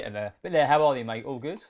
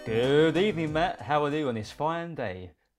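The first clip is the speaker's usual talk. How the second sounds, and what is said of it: Professional radio DJ voice. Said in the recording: “that actually sounded quite professional ... my DJ voice”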